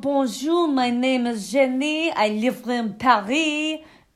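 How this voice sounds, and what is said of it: Poor put-on French accent. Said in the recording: “I can't even do a French accent.”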